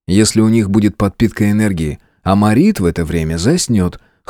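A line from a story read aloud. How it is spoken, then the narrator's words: Snorting. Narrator (Russian): хмыкнул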